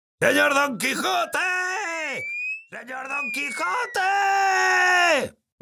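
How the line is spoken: Shouting. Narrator (Spanish): gritaba Sancho

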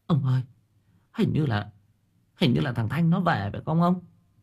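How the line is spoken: Trembling old woman's voice. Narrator (Vietnamese): bà Hòe run rẩy

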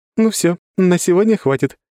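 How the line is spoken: Giggling. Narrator (Russian): хихикнула Лора

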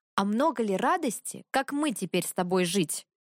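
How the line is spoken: Angry. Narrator (Russian): сердито вымолвила Велимира

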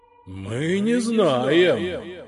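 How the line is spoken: Ghosts moaning in chorus. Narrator (Russian): хором простонали призраки

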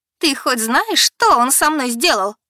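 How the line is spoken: Yelling, interrupting. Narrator (Russian): Завопила, не дав мне договорить

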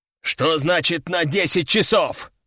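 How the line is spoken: Growled. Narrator (Russian): рыкнул военный

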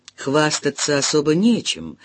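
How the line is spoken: Old man's contented grumble. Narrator (Russian): довольно проворчал старик

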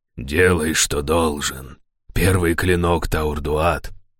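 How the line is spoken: Hoarse, guard leader. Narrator (Russian): хрипло проговорил предводитель стражей

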